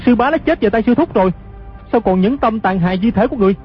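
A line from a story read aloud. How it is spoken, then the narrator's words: Furious shout. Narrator (Vietnamese): Hư Trúc cả giận quát khỏi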